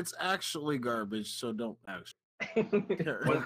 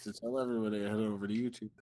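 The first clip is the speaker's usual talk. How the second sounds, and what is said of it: Radio announcer voice. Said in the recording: “I'll use my radio announcer voice”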